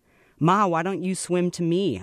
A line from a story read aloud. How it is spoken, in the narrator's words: I think I was hollering, but I don't know if anything came out